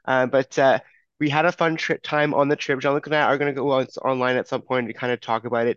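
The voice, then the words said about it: Sounds sick. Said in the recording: “I am sick right now. I'm, not overly too bad, but you can hear it in my voice.”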